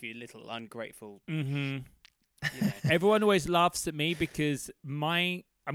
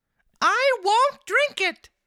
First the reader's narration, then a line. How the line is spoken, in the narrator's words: cried Pinocchio, bursting out crying